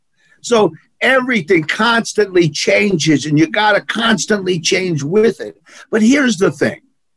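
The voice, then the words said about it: New York accent. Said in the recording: “he's got the New Yorkers. You got this accent. You got that accent.”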